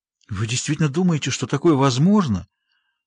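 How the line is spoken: Trembling question. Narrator (Russian): дрожащим голосом спросила она

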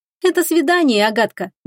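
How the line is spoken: Objected cheerfully. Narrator (Russian): весело возразила Оливия

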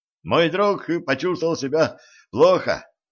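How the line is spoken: Shouting while running. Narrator (Russian): крикнул на бегу стажер

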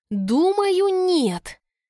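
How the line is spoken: Strained, forced out. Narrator (Russian): выдавила я из себя

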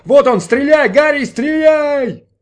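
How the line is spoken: Shouting driver. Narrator (Russian): Шофер кричал

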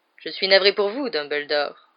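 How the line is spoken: Nonchalant. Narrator (French): reprit Malfoy d'un ton nonchalant

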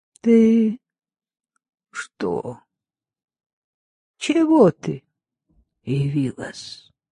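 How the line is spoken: Weak but clear voice. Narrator (Russian): слабым, но ясным голосом сказала

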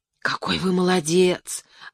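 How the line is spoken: Admiring whisper. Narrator (Russian): восхищенно шепнула Леночка

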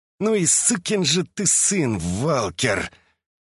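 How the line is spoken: Man angrily hissing through teeth. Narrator (Russian): гневно процедил мужчина сквозь зубы

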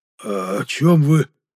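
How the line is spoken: Mumbled by plump aristocrat. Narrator (Russian): промямлил пухлый аристократ

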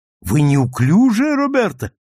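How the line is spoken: Exclaiming. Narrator (Russian): воскликнул он

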